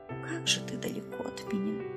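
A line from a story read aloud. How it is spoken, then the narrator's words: Muffled tearful whisper. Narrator (Russian): шептала она, уткнувшись медведю в мохнатый живот и пряча свои слезы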